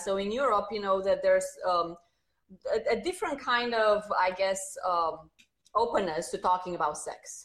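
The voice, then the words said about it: Slight Romanian accent. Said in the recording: “I'm sure you hear a slight accent. You know, I'm originally from Romania”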